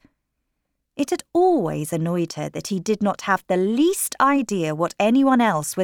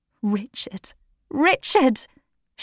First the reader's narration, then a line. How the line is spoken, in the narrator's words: she cried, calling to him to protect her